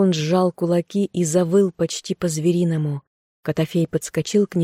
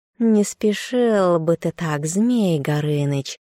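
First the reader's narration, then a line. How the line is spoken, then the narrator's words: Purring. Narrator (Russian): промурлыкал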